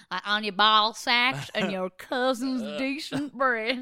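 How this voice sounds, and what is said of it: Put-on Southern accent. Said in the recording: “you just said ball sack in a different weird accent... Southern.”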